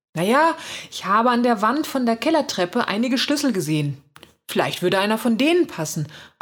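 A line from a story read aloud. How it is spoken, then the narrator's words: Excited answer. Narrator (German): antwortet aufgeregt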